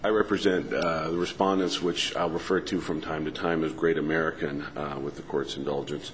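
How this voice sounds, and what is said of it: Hoarse, congested voice with cold. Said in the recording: “apologize for the quality of my voice. I have a bit of a cold.”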